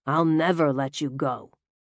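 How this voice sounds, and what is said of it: Sinister menacing voice. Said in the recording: “in a sinister voice.”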